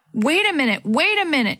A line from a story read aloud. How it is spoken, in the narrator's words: she yelled up to Dee Dee